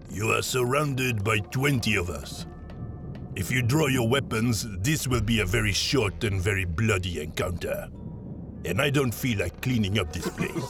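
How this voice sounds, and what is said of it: Deep accented character voice. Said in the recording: “deep voice came from the dark. It spoke in a Goldorian accent.”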